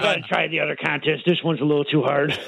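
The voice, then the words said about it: Sliding into a different put-on accent. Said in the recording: “Slid into another accent altogether. ... Turned into a jerky boy at the end of that”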